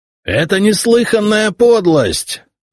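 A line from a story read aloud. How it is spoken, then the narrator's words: Outraged yell. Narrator (Russian): заорал возмущенный легат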